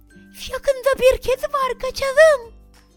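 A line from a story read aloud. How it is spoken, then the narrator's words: Shouted. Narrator (Turkish): diye bağırdı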